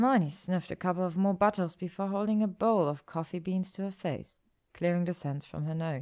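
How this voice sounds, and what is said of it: Usual voice. Nothing is said of it.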